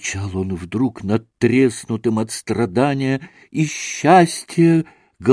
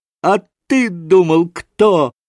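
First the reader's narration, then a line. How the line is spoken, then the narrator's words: Loud ringing happy yell. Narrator (Russian): Звонким счастливым голосом изо всей силы завопил Красоткин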